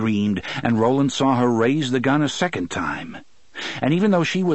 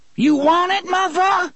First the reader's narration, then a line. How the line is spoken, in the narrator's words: she screamed at him